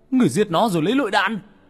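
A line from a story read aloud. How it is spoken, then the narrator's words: Roared in disbelief. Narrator (Vietnamese): mở to mắt như không tin, hắn gầm lên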